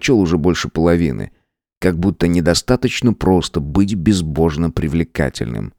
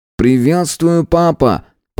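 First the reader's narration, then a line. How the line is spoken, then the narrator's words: Distant shout. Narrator (Russian): крикнул Эдди с дальнего конца бассейна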